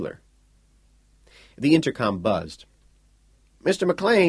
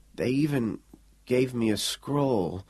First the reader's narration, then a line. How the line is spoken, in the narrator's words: Quayle mumbled